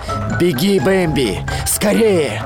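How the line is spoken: Shouting. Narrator (Russian): снова крикнул

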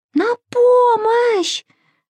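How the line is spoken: Screaming for help. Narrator (Russian): завопила Маша

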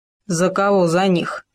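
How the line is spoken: Growled, wolf. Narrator (Russian): прорычал волк

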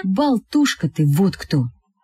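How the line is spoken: Plain. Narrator (Russian): сказал Коля

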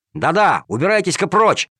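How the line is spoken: Angry boy shouting. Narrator (Russian): сердито прикрикнул мальчишка

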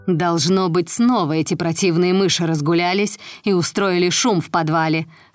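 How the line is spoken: Plain. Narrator (Russian): сказала мачеха

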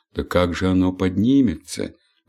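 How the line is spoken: Sighing. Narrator (Russian): вздохнула ночь

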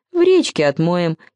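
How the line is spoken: Giggle. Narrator (Russian): хихикнул Нытти

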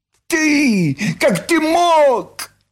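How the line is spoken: Shrieking. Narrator (Russian): взвизгнула Нюша

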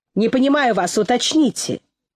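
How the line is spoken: Almost angry. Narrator (Russian): Иван Иванович сказал почти сердито

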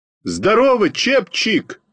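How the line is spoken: Shout. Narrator (Russian): крикнул

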